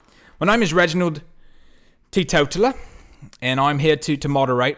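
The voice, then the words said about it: Mixed Australian and southern English accent. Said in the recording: “I'm half Australian, but I'm also from somewhere in England, the southern uh, part of England, in London. ... my, my accent, just like me, is very peripatetic”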